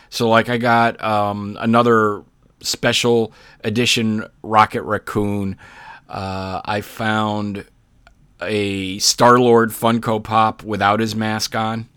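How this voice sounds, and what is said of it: Hoarse, fading voice. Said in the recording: “I'm really losing my voice.”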